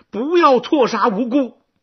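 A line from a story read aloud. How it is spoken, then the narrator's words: Angry humiliated command. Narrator (Chinese): 南后恼羞成怒，下令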